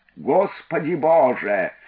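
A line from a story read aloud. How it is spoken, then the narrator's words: Group yelling. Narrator (Russian): завопили они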